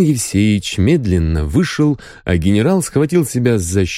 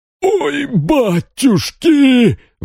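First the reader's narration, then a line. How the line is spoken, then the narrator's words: Wailing. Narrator (Russian): вопил он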